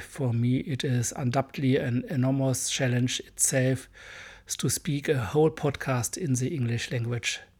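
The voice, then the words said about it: Strong German accent in English. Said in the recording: “sorry for my hard accent. I'm a German boy.”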